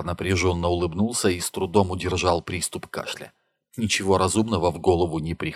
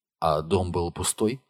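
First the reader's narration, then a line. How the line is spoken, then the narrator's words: Plain. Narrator (Russian): спросила Нила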